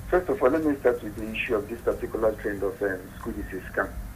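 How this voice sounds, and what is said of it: Quiet, low-volume voice. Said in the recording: “you need to speak up a bit, please ... My voice is a little down.”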